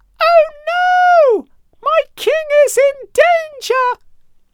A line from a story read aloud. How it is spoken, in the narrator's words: he screamed